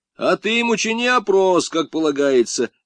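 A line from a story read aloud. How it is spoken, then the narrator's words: Shout from crowd. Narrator (Russian): выкрикнули из толпы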